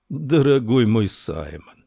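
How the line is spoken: Tender purring voice. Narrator (Russian): голос герцога напоминал нежное мурлыканье

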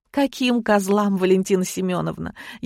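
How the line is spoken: Sniffling, silly giggle. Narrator (Russian): шмыгнула носом и глупо хихикнула

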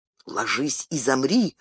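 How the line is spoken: Whispered command. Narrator (Russian): шепотом приказал Арагорн

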